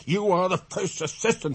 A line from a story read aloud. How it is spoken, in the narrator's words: he shouted